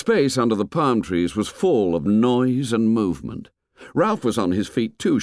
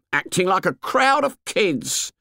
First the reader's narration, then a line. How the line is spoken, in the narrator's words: he said scornfully